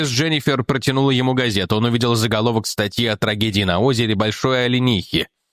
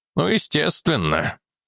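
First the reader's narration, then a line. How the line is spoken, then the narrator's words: Muttered. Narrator (Russian): пробормотал Фитцхью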